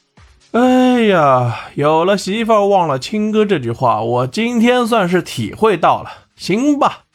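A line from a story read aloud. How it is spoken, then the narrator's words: Sighing, sorrowful. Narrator (Chinese): 唐飞叹了一口气，语气中满是悲伤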